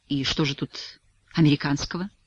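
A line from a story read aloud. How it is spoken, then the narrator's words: Dry question. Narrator (Russian): сухо осведомился Блаватский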